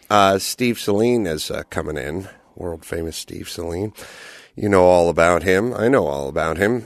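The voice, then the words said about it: Congested voice from a cold. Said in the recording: “I still got my cold, so my voice is a little wanky.”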